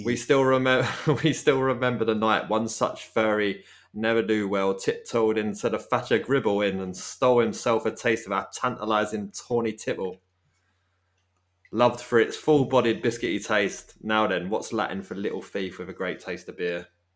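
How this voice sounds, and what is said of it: Put-on Dorset accent, not very good. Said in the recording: “Only I think theirs was a little bit better than my Dorset accent there... It's kind of written in dialect.”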